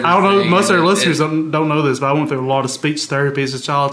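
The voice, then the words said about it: Mississippi Southern US accent. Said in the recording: “I just didn't pick up the accent ... I can't shake it for the life of me ... this horrible accent that makes me sound so ignorant”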